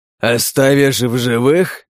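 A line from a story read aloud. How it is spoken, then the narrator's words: Hysterical laughter. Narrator (Russian): Он истерично засмеялся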